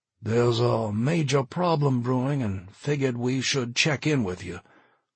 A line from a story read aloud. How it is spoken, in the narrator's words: Charlie said, his voice thin, raspy